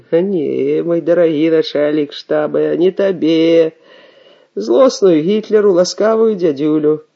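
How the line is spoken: Laughing. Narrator (Belarusian): Ман засмеяўся

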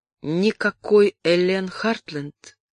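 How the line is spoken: Soft question. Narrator (Russian): мягко спросил Кристиан

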